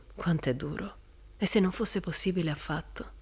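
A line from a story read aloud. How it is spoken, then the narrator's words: Sighed. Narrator (Italian): sospirò Jim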